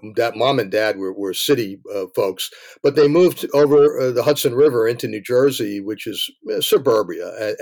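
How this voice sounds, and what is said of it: Bronx New York accent. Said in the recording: “maybe you could tell from my accent, I was born in the Bronx”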